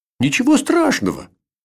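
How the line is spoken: Reassuring. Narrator (Russian): Заверил

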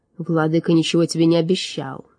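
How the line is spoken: Cold. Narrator (Russian): холодно произнес он

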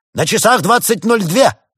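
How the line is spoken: Teenager shouting. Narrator (Russian): выкрикнул подросток в потолок

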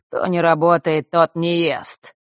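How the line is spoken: Mocking. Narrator (Russian): насмешливо произнесла Хронимара

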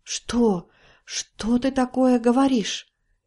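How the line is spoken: Old woman's incredulous whisper. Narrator (Russian): Не веря своим ушам, прошептала старуха

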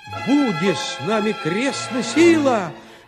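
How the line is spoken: Shout. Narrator (Russian): закричал тогда Гаврила

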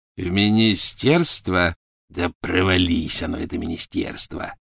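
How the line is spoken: Growled. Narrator (Russian): прорычал Сивый

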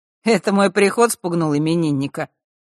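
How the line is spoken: Chuckling. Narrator (Russian): хмыкнул Мар

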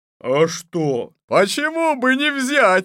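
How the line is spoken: Crowd of men shouting. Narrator (Russian): закричали бояре

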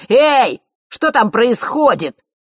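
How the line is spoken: Barked from outside. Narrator (Russian): рявкнул снаружи Марк

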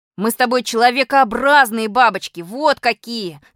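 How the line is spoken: Yelled. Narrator (Russian): заорал на меня Малинин

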